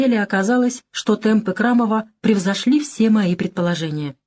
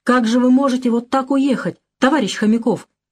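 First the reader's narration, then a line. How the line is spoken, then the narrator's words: Exclamation. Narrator (Russian): воскликнул я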